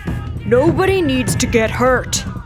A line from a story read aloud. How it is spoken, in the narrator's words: the lead man bellowed